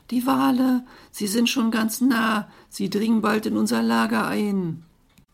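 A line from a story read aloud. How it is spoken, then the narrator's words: Little dolphin girl calling. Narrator (German): das kleine Delfinmädchen, glänzende Forelle ... rief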